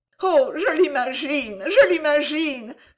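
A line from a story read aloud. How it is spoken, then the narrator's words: Blushing exclamation. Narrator (French): s'écria-t-elle en rougissant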